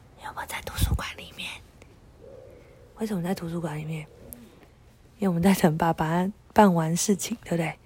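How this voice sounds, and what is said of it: Speaking very quietly, near whisper. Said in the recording (Chinese): “为什么我们现在讲话那么小声？”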